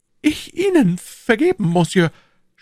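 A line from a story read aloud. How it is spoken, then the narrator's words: Stammering. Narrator (German): stammelte Bonacieux, zweifelsohne aus Furcht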